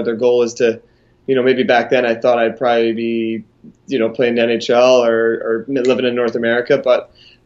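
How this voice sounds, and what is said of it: Mild Scottish accent, Canadian-tinged. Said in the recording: “a guy from Scotland ... a little bit of a thicker accent ... watered down over the years ... mixed a little Canadian into the accent ... Canadian mixed accent”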